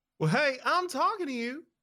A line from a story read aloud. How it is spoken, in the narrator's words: she yells